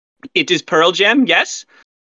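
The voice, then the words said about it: French-Canadian accent imitation. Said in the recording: “Like, I think it was a French-Canadian accent. ... just the way he said it was hysterical”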